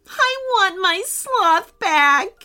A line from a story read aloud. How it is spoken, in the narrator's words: wailed